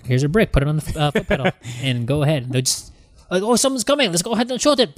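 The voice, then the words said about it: Put-on German accent. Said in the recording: “That was my worst accent there ... It's really good, though ... It's a good German accent ... That is my German accent”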